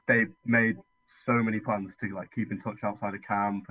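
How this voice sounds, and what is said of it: British accent. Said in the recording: “If people can't tell from your accent, you're not an American. ... in contrast to the UK”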